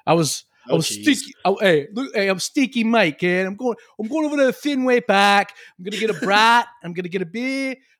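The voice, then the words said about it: Put-on Boston accent. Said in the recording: “we used to do Boston accents.”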